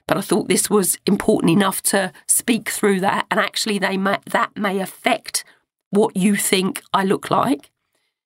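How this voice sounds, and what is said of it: Croaky voice from a cold. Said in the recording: “I've got a cold, so my voice is a little bit croaky today.”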